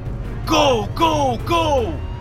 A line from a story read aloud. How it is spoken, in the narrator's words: I yelled into the walkie-talkie